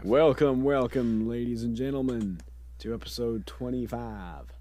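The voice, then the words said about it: Bad put-on Southern accent. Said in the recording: “It's like my crappy Southern accent. This is terrible.”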